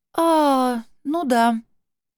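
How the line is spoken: Uncertain. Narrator (Russian): неуверенно кивнула она и сообщила

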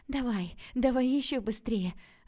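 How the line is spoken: Joyful urging. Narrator (Russian): радостно подгоняла Василина

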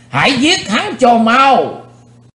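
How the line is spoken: Crowd roaring in unison. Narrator (Vietnamese): Quần hùng đồng thanh gầm thét chấn động cả chân núi

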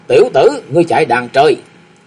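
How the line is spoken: Shouting. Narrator (Vietnamese): Vừa quát

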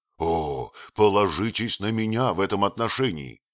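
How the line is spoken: Exclaimed. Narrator (Russian): воскликнул фриц

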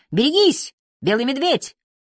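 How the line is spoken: Terrified speech. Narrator (Russian): говорил Чарльз, в ужасе

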